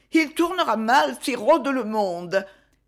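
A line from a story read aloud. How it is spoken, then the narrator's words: Fearful moaning mother. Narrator (French): gémit la mère, laissant voir sa crainte la plus secrète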